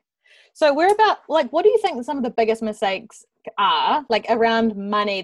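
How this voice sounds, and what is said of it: New Zealand accent. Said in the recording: “That sounded so Kiwi just then. I'm very aware of my accent right now.”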